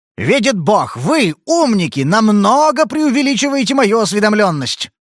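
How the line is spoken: Irritated exclamation. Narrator (Russian): Спейд раздраженно воскликнул

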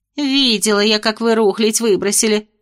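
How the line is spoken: Grumbling. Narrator (Russian): проворчала

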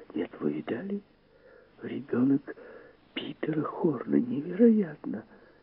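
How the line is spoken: Nurses whispering. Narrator (Russian): сестры и санитарки в белых халатах шептались

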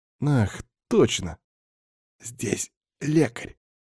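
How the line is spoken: Barely audible. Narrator (Russian): еле слышно сказал Варваре

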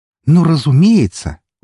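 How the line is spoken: Exclaim. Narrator (Russian): воскликнула Нуура

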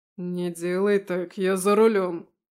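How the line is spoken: Growl. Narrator (Russian): рыкнул он

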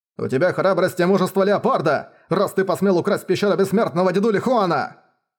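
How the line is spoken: Roaring. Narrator (Russian): взревел Хуан Досянь

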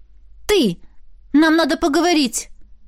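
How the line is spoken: Exclaimed. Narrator (Russian): воскликнула я

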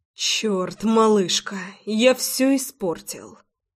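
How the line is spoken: Muttering. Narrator (Russian): Пробормотал Рома

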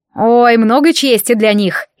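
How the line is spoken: Ironic snort. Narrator (Russian): иронично фыркнул Нориар

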